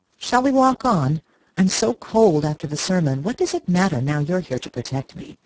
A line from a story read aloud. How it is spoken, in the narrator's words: rejoined in a lighter tone